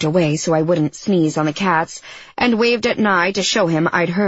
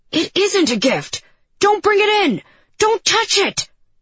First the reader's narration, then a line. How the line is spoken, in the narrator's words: Nye screamed from the city